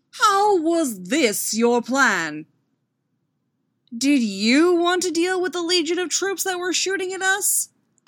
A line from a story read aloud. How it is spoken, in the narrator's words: Anakin shouted back